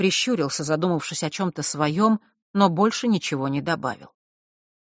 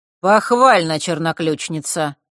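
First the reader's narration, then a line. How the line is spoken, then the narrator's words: Dry remark. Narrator (Russian): по обыкновению сухо заметил Рок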